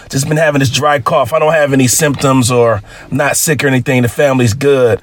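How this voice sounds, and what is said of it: Raspy, sore-throated voice. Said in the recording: “Got a bit of a sore throat here, so that's probably why I'm more raspy than usual.”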